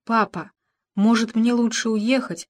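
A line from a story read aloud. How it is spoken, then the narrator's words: Tearful whisper. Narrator (Russian): шепнула Саванна отцу, едва сдерживая слезы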